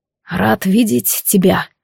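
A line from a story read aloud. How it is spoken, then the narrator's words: Hoarse and quiet. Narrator (Russian): осипшим голосом тихо сказал Рейджен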